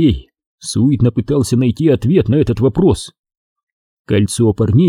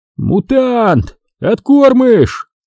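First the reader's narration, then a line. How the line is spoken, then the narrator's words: Shouted from behind. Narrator (Russian): закричал кто-то сзади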